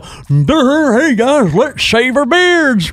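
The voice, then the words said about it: Imitates another person's voice. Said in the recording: “that was a really good impression”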